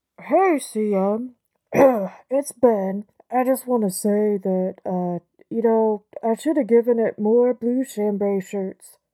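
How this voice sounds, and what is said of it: Sudden put-on accent. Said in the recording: “I'm not sure why you have an accent all of a sudden”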